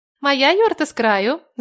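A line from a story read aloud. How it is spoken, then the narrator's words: Laughing. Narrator (Russian): засмеялась Яна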